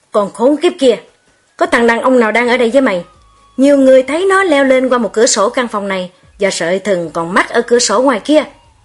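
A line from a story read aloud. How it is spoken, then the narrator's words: Angry king shouting. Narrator (Vietnamese): Nhà vua giận dữ bước vào và quát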